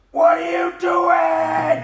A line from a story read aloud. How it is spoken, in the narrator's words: Luke shouting